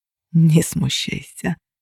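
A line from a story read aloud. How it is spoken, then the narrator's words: Soft whisper. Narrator (Russian): тихонько прошептал мне Костя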